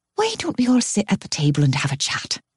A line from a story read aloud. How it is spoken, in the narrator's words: Claire suggests gently